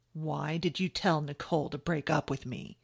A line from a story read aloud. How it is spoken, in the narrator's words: he asked her, his pleasant-sounding voice